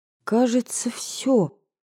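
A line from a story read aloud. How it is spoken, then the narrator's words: Timid. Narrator (Russian): робко произнесла я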